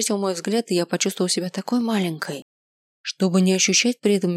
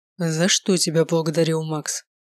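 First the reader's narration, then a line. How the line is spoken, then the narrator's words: Calmer repetition. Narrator (Russian): Снова повторил он уже более спокойным голосом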